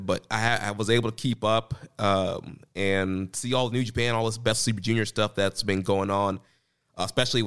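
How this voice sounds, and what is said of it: Slightly congested, stuffed-up voice. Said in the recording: “I started getting sick... Flu-like symptoms and cough... Still a little stuffed up. You can probably hear it in my voice a little bit.”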